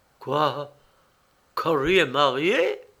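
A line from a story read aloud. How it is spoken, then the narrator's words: Stunned exclamation. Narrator (French): s'exclama Lawrence un peu étourdi de l'information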